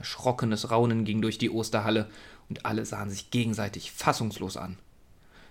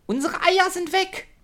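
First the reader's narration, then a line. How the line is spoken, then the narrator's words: Excited shout. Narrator (German): Luft geschnappt hatte ... rief dann aufgeregt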